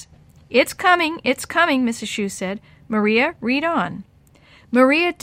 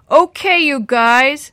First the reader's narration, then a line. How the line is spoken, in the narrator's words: Sammy roared